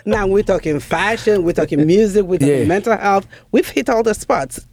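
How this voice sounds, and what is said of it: Nigerian accent. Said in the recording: “I have, you know, the Nigerian accent”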